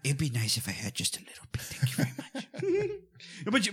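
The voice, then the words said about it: Loomis character voice. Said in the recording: “do the Loomis voice, but just a little bit”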